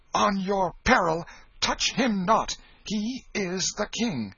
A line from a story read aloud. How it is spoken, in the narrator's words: the mock king stamped his foot and cried out